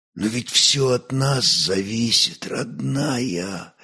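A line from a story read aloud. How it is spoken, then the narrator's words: Whisper. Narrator (Russian): прошептал Ольг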